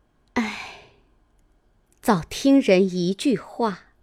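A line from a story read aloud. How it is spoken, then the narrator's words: Relieved sigh. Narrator (Chinese): 宝钗心中也宽慰了好些，便点头叹道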